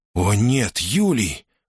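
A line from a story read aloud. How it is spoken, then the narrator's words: Horrified gasp. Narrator (Russian): в ужасе выдохнул Брут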